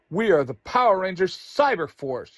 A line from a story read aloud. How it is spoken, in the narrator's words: Yellow Ranger yells